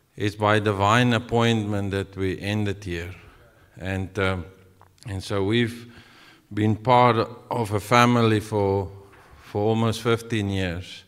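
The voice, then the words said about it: South African accent. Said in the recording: “my accent. I'm from the deep south, like very deep south, South African deep.”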